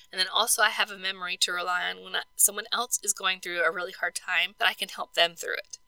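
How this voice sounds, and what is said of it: Hoarse, croaky, failing voice. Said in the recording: “my voice is going to give out and y'all don't need to hear me croak anymore”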